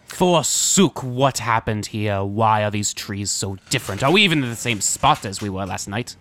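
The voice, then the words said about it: Hard-to-understand put-on accent. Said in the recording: “I have trouble understanding your horrible accent, sir.”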